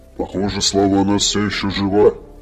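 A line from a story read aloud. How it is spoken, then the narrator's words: Low bass voice. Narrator (Russian): ответил ему главный голем низким басом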